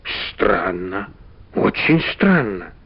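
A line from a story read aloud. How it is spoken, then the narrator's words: Muttering. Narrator (Russian): пробормотал Иван Гермогенович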